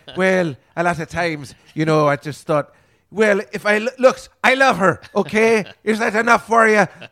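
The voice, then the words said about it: Put-on Irish accent. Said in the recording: “I'd just start doing her accent too, which would be hilarious ... why are you using that accent? ... I'm a Jew from Ireland”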